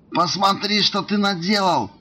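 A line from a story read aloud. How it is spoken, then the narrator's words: Brat wailing. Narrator (Russian): вопил сопляк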